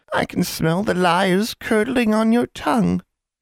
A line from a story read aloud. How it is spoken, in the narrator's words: Anya leaned forward and said in a deceptively sweet voice